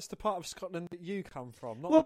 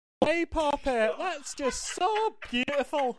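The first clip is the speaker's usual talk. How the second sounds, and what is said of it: Bad put-on Scottish accent. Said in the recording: “Your shit Scottish accent ... That is awful ... Scottish people do not sound like that.”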